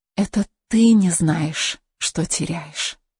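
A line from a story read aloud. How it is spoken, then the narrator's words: Female whisper. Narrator (Russian): прошептала Анна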